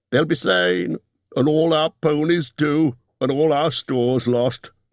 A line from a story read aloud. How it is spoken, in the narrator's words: moaned the others